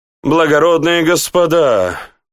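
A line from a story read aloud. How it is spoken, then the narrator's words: Costumed man exclaiming. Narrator (Russian): воскликнул ряженый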